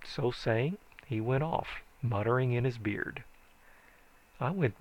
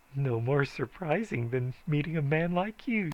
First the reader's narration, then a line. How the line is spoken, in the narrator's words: says she, with a kind of fluttery laugh